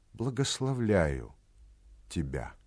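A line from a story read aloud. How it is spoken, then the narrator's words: Moved, touched voice. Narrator (Russian): сказал тронутым голосом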